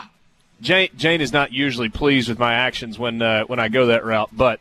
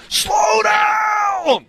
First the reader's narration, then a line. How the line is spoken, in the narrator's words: scream at them